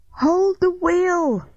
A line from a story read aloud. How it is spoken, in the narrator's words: I yelled